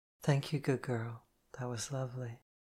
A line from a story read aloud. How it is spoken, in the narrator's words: whispered